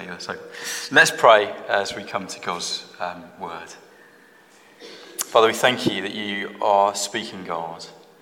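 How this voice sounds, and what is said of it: London English accent. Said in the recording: “Already you know I'm not from Tipton, just from my words, my accent. I was born in London”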